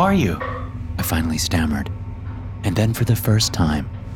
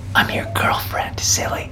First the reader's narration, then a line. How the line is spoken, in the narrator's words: she whispered into my ear